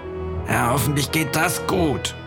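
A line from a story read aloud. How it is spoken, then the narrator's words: Old man groaning. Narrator (German): stöhnte der Alte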